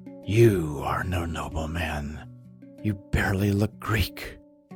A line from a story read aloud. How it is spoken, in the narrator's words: Helen said quietly